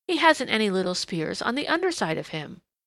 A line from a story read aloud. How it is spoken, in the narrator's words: he exclaimed